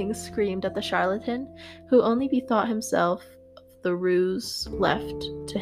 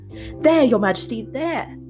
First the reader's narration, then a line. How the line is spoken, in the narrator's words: he shouted